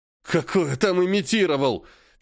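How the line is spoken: Exasperated exhale. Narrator (Russian): В сердцах выдохнул Кочергин

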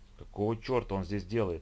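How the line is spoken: Quiet cursing. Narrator (Russian): тихонько выругалась Тина

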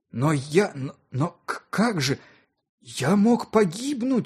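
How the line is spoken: Strained, forced out. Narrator (Russian): выдавил наконец я

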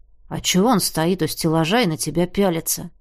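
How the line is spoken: Whisper, young man. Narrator (Russian): прошептал парень

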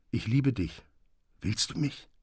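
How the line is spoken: Quiet voice. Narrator (German): sagte mit leiser Stimme

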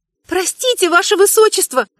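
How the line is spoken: Hesitant timid babble. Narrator (Russian): наконец решилась пролепетать

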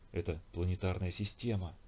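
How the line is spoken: Whisper. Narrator (Russian): прошептал Нестеренко

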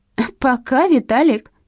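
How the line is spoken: Shout after departing car. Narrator (Russian): крикнула девица вслед отъезжающей машине

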